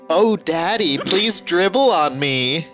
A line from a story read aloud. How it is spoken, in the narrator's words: Teens were moaning and screaming